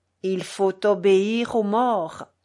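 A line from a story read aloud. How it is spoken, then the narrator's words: Sepulchral voice. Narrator (French): disait-il d'une voix sépulcrale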